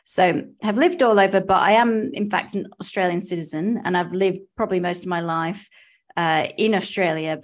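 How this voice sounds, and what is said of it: Strong accent. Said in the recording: “I still have a strong accent”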